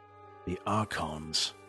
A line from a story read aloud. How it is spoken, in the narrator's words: Ian whispered